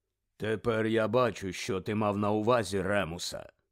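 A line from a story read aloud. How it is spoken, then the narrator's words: Low, unhurried voice. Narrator (Ukrainian): Низьким голосом неквапно сказав чарівник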